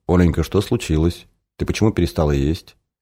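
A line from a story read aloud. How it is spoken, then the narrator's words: Quiet question, guardian. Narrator (Russian): Тогда хранитель спросил ее тихо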